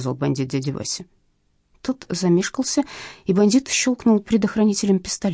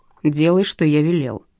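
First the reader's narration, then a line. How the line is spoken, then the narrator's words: Barked order. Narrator (Russian): рявкнул бандит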